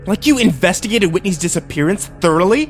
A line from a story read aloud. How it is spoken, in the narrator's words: I spat